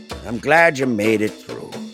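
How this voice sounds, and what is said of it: Old man voice. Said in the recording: “He put on this like old man voice.”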